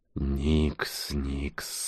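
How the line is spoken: Soft, reproachful. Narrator (Russian): мягко и укоризненно проговорил Нкот

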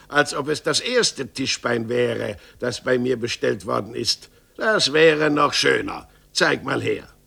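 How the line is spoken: Angry exclamation. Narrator (German): rief Meister Gottlieb ärgerlich aus

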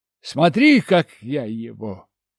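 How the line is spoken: Boastful tone. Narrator (Russian): Хвастливым тоном заявил я

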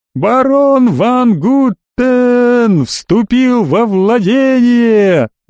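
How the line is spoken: Wild howling voice. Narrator (Russian): Дурным голосом завыл Амбруаз

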